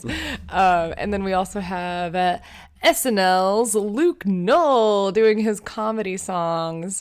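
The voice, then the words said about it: Announcer voice. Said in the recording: “Announcer voice?”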